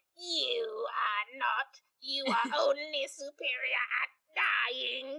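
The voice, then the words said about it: Imitates a Dalek's voice. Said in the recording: “the Daleks are like ... that was a perfect impression”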